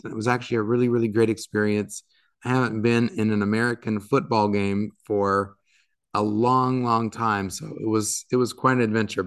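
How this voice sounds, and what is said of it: Raspy, partly lost voice. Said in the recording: “my voice is a little bit raspy today, it's because I was probably doing more screaming and yelling than I normally do ... the voice is kind of gone”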